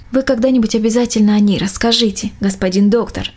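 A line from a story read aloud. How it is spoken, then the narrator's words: Plain. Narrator (Russian): ответила Мельничиха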